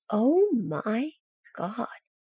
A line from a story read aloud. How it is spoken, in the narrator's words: he says slowly